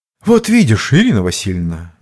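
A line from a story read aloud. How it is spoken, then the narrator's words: Hopeless sigh. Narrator (Russian): безнадежно вздохнув, произнес Рощин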